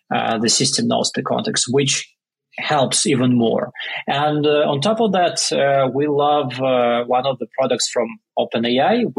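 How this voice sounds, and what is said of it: Non-native English accent. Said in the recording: “for me with my accent”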